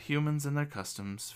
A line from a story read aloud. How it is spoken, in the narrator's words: Fedar sighs